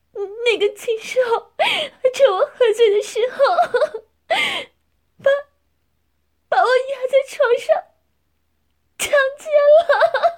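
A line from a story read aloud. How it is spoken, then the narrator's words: Crying. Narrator (Chinese): 夏丽金哭着说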